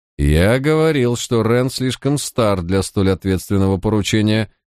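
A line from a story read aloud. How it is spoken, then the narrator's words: Grumbling. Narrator (Russian): проворчал Мальверер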